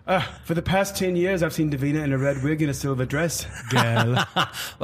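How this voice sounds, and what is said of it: Attempted Liverpool accent, sounds Irish. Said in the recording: “the accent's a bit off. It's a bit Irish. ... I'll take you to Liverpool. You can pick it up.”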